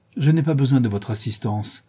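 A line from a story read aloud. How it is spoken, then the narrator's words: Curt, dry. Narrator (French): dit-elle sèchement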